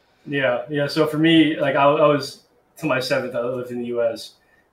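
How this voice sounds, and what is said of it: American-sounding English accent. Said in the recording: “I used to live in the U.S., as most people can hear from my accent.”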